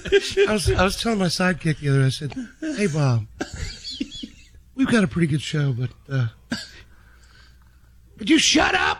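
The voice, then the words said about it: Imitates another person's voice. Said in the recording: “does a great impression of John”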